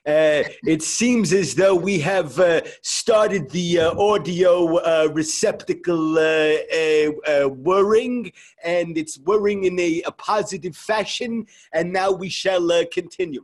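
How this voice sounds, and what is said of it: Imitates another person's voice. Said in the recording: “this newfangled technology has me sounding like my father.”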